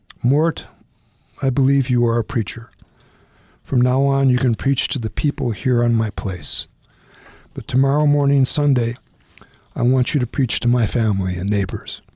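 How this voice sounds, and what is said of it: Broken, tearful voice. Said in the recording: “began to cry ... in a broken voice”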